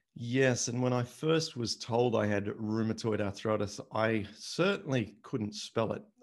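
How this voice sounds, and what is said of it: Noticeable accent. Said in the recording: “we will detect this accent.”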